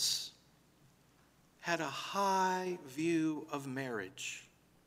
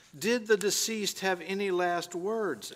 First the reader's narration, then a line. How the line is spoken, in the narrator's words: asked the lawyer